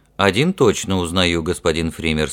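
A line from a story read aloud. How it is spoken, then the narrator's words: Forced calm. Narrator (Russian): сообщил Ральф как можно более спокойно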